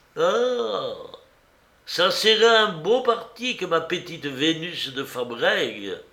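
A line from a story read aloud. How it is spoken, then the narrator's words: Sighing. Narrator (French): soupira l'estrigou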